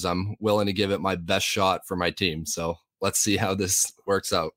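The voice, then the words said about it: Strained, failing voice. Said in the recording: “a little under the weather, questionable with a voice issue... a bit of a throat injury... My voice is starting to fail me a little bit”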